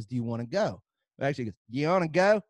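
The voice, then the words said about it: Imitated hard regional Texas accent. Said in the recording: “That's how they all talk. It's a hard accent. ... It's just one word.”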